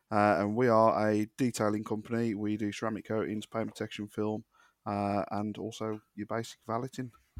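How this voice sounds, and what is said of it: West Midlands English accent. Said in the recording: “We're based in Stourbridge, which is the West Midlands. As you can tell by the accent, it's just south of Birmingham”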